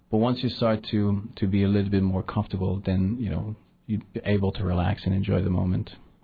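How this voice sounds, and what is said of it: French-Canadian accent. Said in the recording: “You sound like you have an accent. ... I'm French-Canadian, so I was come from Quebec”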